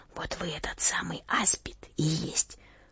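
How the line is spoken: Quiet. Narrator (Russian): Настасья сказала ему тихо

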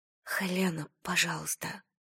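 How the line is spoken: Whisper. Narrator (Russian): прошептала Айрис

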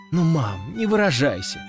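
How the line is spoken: Exclaiming. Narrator (Russian): воскликнула Катя

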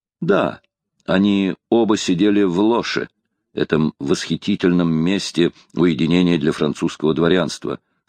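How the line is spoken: Plain. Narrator (Russian): сказал де Эмберкур

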